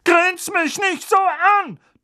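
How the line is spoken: Thundering. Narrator (German): donnerte Tante Magda

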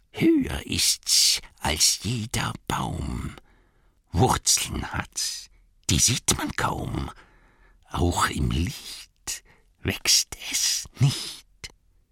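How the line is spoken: Hissing. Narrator (German): Also zischelte Gollum

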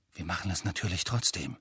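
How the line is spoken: Quiet. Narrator (German): sagte leise

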